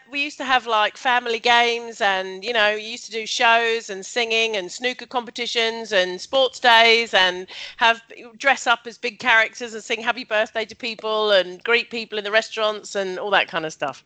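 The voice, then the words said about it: Welsh accent. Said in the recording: “My Welsh accent.”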